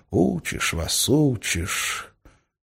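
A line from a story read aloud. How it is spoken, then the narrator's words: Grumbling. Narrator (Russian): Гессер проворчал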